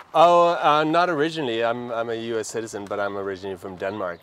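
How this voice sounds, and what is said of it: Danish accent in English. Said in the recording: “the accent. Okay, yeah, I recognize it right off.”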